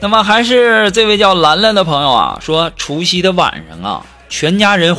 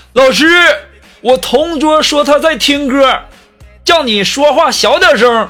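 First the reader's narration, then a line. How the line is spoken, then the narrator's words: Sudden shout. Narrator (Chinese): 这二货突然就举手大喊呢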